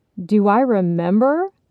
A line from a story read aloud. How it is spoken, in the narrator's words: Rob laughed loudly